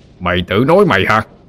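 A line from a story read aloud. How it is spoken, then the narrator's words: Roaring. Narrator (Vietnamese): Quan lửa gầm lại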